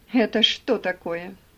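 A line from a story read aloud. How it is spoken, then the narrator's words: Triumphant shout. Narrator (Russian): закричал он торжествующим голосом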